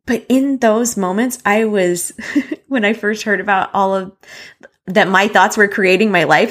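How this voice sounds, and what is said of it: Choked-up, emotional voice. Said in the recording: “getting choked up”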